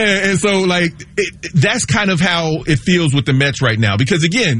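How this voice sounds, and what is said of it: Usual voice. Nothing is said of it.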